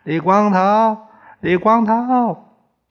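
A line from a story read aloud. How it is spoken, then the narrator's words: Shouting a name. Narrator (Chinese): 李光头 喊叫着宋刚的名字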